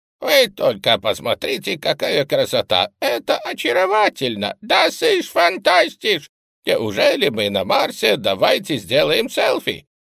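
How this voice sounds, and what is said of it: Mocking falsetto imitation of people. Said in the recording (Russian): “перешел с баса на фальцет и начал передразнивать людей”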